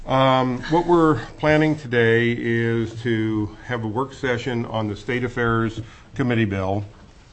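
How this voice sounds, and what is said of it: Slightly raspy voice. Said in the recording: “I sound a little raspy ... bronchial cred”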